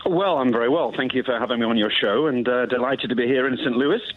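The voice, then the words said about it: British Queen's English accent. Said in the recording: “you've got the greatest accent we've ever had on this ... station ... I apologize for my accent, but it's more Queen's English than nothing else”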